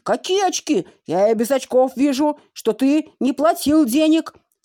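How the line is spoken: Angry shouting man. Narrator (Russian): закричал карусельщик

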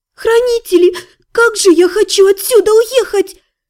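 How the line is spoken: Sobbing girl. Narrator (Russian): Всхлипнула девушка

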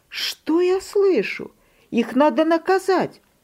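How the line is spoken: Mother exclaiming. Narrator (Russian): Мама воскликнула

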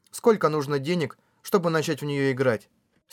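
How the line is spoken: Calm question. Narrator (Russian): спокойным голосом спросила Кёдзи

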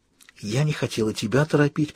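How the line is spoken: Whisper. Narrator (Russian): прошептала

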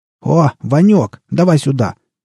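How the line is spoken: Shouted. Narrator (Russian): крикнул борода вошедшему другу

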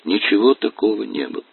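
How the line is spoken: Calm, unflustered. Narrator (Russian): ответила она спокойно, без всякого замешательства

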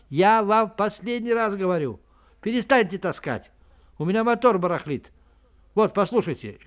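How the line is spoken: Shouted. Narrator (Russian): Летчик закричал

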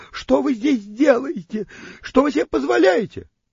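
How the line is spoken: Girl's startled indignant shrieking. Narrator (Russian): Девочка взвизгивала от неожиданности и возмущенно вопрошала

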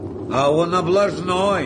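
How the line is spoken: Shouting. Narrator (Russian): крикнул Кирюха

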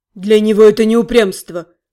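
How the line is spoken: Grumbling. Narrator (Russian): проворчал Дэниел

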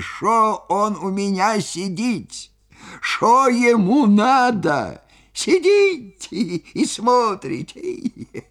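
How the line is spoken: Laughing, bass then squeaky. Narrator (Russian): Или он хохотал, хохотал до слез, то басом, то тонким писклявым голосом, и спрашивал меня

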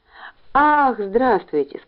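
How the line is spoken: Joyful. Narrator (Russian): сказал он радостно

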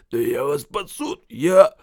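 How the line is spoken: Hoarse croak. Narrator (Ukrainian): Діду ... захрипів

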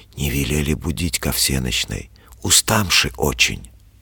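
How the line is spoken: Young man whispering. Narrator (Russian): молодчик говорит шепотом

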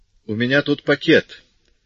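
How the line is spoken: Cold usual tone. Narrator (Russian): сказал он своим обычным холодным тоном

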